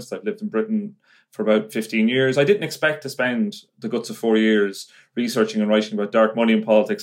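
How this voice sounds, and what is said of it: Irish accent. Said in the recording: “as you can probably tell from my voice, I'm an Irish journalist”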